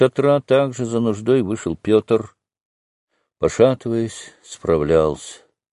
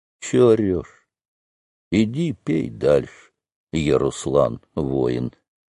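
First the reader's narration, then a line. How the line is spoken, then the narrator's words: Soldier grumbling. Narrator (Russian): Кое-кто из солдат проворчал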